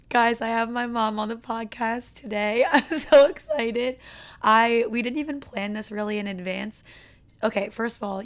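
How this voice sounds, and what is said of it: Strained, worn-out voice. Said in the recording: “you can hear it in my voice... obviously my voice is not doing well”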